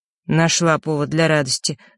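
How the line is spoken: Surprised snort. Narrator (Russian): с удивлением хмыкнул

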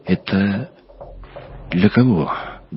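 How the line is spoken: Trembling voice. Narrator (Russian): дрогнувшим голосом спросил Максим Приходько

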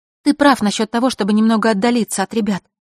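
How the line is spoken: Rapid whisper. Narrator (Russian): быстро-быстро зашептала

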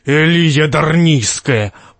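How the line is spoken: Booming, muffled by helmet. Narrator (Russian): прогудел из-под шлема Грегор

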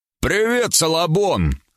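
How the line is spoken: Shout. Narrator (Russian): крикнул

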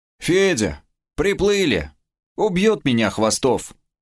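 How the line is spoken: Gloomy grumbling. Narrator (Russian): мрачно пробурчал Кастет

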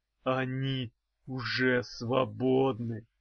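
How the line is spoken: Envious hoarse wheeze, bone man. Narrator (Russian): Чувствуя это, завистливо просипел костяной человек

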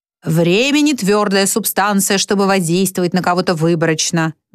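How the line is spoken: Lecturing tone. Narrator (Russian): менторским тоном вещает Филин

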